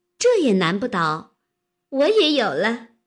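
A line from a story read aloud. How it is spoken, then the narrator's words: Laughing. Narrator (Chinese): 湘云笑道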